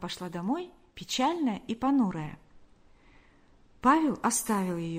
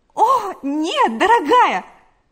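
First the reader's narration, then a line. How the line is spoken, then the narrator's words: Exclaiming. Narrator (Russian): воскликнула Галя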